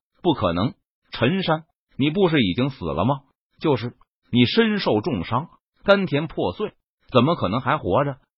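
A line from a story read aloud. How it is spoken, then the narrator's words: Shocked exclamation. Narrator (Chinese): 陈宝和陈照仿佛就像是见了鬼一般，惊呼道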